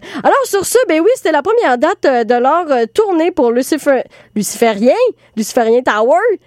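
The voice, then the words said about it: Heavy Québécois accent. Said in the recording (French): “je le dis avec un gros accent québécois”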